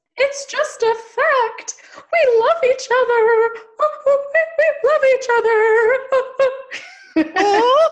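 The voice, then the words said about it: Impersonation of Jenny. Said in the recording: “Your impersonation of Jenny might be your best work.”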